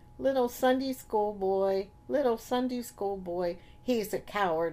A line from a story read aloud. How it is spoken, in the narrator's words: He chirped up in a little voice